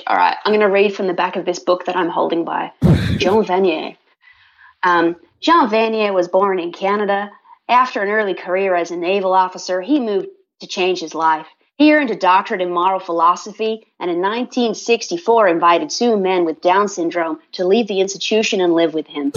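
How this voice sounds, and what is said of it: Convincing fake accent. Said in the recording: “your fake accent, it was so good”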